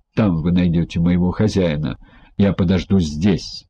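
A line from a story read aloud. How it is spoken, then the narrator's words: Irritated steward. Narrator (Russian): домоправитель раздраженно сказал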